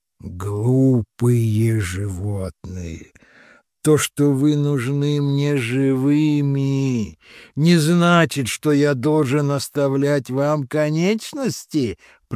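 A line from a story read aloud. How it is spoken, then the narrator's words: Monster hissing through teeth. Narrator (Russian): процедило чудовище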